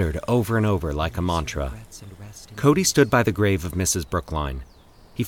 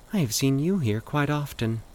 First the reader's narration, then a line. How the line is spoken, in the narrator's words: the woman said softly